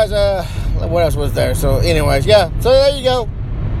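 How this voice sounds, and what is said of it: Usual voice. Nothing is said of it.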